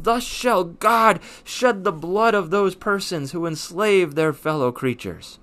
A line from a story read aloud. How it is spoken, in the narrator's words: he yells out